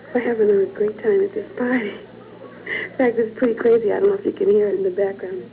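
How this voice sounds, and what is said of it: Hoarse voice from laryngitis. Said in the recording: “I'm sorry if you can't hear me too well. I've got laryngitis”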